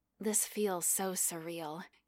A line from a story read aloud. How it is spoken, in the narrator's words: he murmured into her mouth